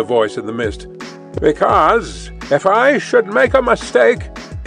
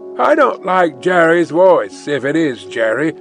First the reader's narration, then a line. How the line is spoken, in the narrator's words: growled the guard to himself